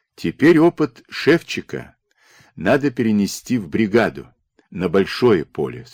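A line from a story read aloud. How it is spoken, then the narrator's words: Calm. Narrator (Russian): спокойно проговорил Дмитро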